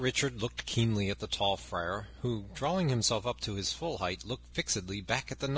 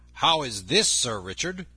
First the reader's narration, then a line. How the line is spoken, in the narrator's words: said he sternly